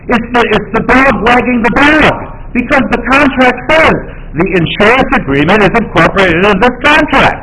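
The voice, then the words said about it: Raised, loud voice. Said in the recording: “If you would perhaps lower your voice.”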